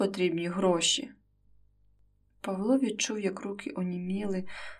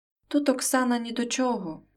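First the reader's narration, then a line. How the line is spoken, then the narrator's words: Loud exclamation. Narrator (Ukrainian): вигукнув Назарій на всю оселю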